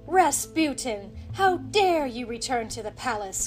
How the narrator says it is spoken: cried Nicholas

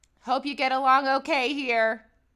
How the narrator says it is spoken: called out the window

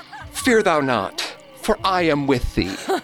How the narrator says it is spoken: Hoarse with fear Mother yelled

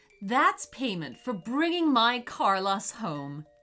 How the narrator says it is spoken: said his mom

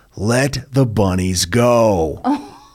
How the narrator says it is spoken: Jethro saying in an exasperated tone

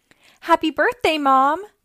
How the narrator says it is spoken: giggled

